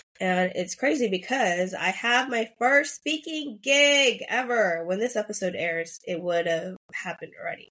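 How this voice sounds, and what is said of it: Slightly raspy voice. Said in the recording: “my voice is actually kind of raspy”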